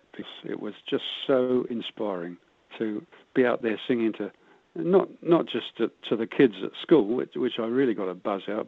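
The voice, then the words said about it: British accent. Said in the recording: “you can probably tell from my accent I wasn't born here, but I've been here longer than I ever lived over in the UK”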